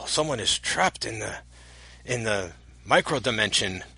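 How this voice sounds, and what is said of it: Gruff voice with put-on Asian accent. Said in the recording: “Getting a little racist with this impression ... I thought I was just trying to do like a gruff voice. ... No, you were doing an Asian thing.”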